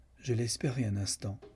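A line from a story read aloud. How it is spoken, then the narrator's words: Cold. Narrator (French): dit froidement Lucan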